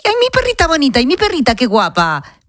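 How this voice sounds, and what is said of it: Baby talk voice. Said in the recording (Spanish): “le hablas con voz de bebé ... a veces reconozco que sí, un poco”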